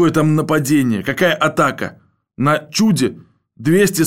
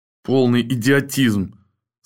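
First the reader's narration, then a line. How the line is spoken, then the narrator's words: Muttered through teeth, sweaty. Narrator (Russian): сквозь зубы пробормотал взапревший главный артиллерист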